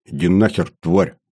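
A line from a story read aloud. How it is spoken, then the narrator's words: Gruff mutter. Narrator (Russian): снова буркнул я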